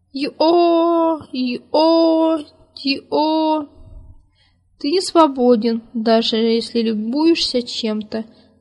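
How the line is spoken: Long mournful winged cry. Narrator (Russian): Кто-то на длинных остроконечных крыльях протяжно и печально прокричал

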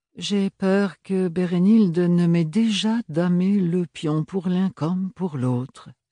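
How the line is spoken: Sighing. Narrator (French): soupira Archibald

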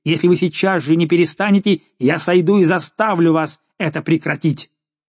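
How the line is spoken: Furious shout. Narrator (Russian): барон крикнул в бешенстве

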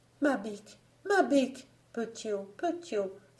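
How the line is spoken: Cried out. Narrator (French): s'écria-t-elle

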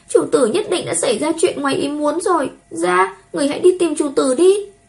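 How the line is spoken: Tearful girl's pleading. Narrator (Vietnamese): tiểu nha đầu khóc lóc kể lể

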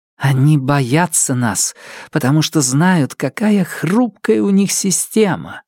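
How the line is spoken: Whispered in ear. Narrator (Russian): зашептала мне на ухо Лирия

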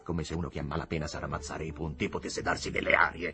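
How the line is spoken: Growled. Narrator (Italian): ringhiò il signor Higginbotham

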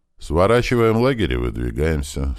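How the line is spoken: Completely calm. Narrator (Russian): совершенно спокойно сказал Крот

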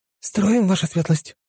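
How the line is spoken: Frightened squeak, girl. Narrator (Russian): испуганно пискнула девушка

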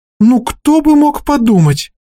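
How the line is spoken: Exclamation. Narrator (Russian): воскликнула Итмур

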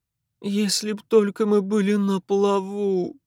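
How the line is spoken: Repeated moaning. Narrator (Russian): в 12-й раз простонала миссис Марье

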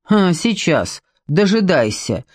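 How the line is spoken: Agitated snort. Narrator (Russian): фыркнул Ваня, в волнении

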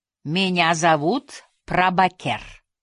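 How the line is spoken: Melodic accented English. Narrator (Russian): произнес он по-английски с мелодичным акцентом

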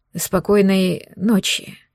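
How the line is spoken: Suspiciously hoarse. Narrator (Russian): как-то подозрительно хрипло пожелал он

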